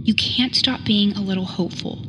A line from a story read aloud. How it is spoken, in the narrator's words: Till said